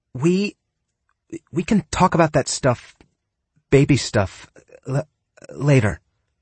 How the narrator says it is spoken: she stammered

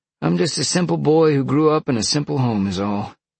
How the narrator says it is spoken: Sean sighed

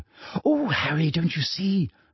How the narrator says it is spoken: Hermione breathed

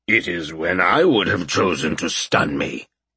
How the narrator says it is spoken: Tiny rumbled with a shrug

